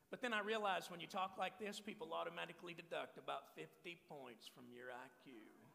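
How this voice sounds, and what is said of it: Strong Texas accent. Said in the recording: “I'm from Texas... where's your accent? Well, I used to talk like this, and it was really, really strong.”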